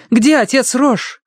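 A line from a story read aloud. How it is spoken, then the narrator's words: Shouted. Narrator (Russian): крикнула она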